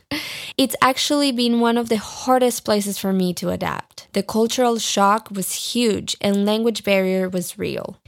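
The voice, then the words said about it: Non-native English accent. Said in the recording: “you've heard my accent. I'm working on it, but pronunciation in English, my friends, is very hard.”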